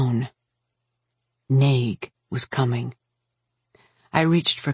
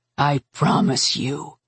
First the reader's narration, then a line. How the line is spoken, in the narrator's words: he said, his voice low, almost a snarl